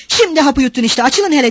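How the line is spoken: Shouted. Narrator (Turkish): diye bağırdı

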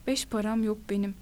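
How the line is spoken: Monotone voice. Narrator (Turkish): Tek düze bir sesle

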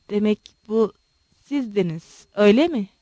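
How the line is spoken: Stammered. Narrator (Turkish): diye kekeledi

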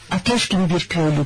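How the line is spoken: Plain. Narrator (Turkish): dedi

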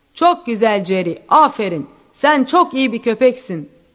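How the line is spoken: Shouting. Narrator (Turkish): diye bağıran Van Horn'un övgüleriyle

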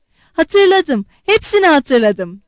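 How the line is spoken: Shouted. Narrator (Turkish): diye bağırdı

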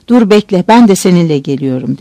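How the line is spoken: Plain. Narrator (Turkish): dedi

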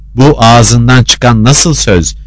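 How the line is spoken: Shouting. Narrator (Turkish): diye bağırdı Zarife

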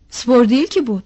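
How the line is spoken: Shouting. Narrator (Turkish): diye bağırıyordu

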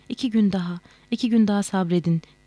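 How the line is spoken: Pleading voice. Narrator (Turkish): diye yalvaran sesi

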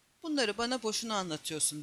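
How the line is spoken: Grumbled. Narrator (Turkish): diye homurdandı Sinan

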